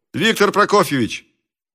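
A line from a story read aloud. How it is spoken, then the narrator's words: Shouted. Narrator (Russian): он крикнул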